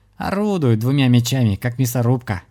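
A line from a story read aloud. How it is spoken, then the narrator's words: Laughing reply. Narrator (Russian): хохотнул в ответ Дима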